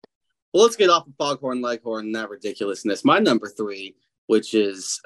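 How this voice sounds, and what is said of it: Usual voice. Nothing is said of it.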